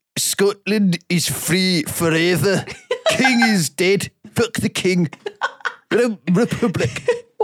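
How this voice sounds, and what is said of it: Put-on Scottish accent. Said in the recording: “Can you do the accent? ... Scottish accent”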